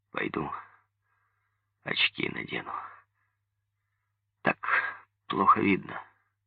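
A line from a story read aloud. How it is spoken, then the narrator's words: Hoarse. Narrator (Russian): сказал сипло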